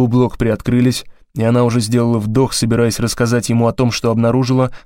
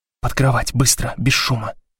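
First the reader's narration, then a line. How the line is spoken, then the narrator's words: Whisper. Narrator (Russian): прошептала Блок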